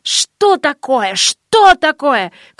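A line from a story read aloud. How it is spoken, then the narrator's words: Angry bewildered shouting cleric. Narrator (Russian): кричал духовный сердитым недоумении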